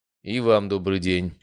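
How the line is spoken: Dry. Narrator (Russian): сухо сказал я

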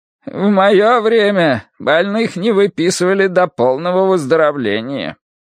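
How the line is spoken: Creaky voice. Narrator (Russian): он проскрипел

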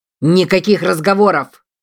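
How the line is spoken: Barking general. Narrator (Russian): рявкнул генерал

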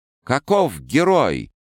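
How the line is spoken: Birds crying out. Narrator (Russian): кричали птицы небесные

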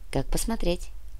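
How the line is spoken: Quiet reply. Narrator (Russian): Тихо ответила рыжая

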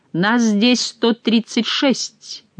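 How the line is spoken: Deep bass proclamation, monk. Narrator (Russian): густым басом провозгласил монах

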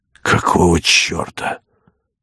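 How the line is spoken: Ashamed muttering. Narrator (Russian): бормотал

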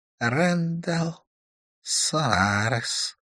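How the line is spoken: Muffled snakelike hiss. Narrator (Russian): донеслось змеиное шипение из подарки

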